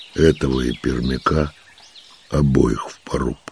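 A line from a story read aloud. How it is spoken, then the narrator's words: Quiet command. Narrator (Russian): негромко велел он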